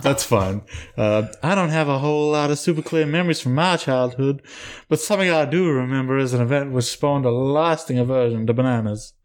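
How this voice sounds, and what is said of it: Put-on Southern belle accent. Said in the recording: “Put on a voice. Put on your Kara voice. ... she's a Southern Belle”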